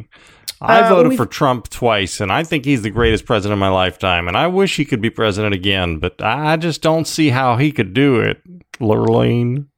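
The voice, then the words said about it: Put-on southern-sounding accent. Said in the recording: “They don't have that accent. ... some of them have sort of a southern accent. I mean, I don't know exactly what accent you're doing”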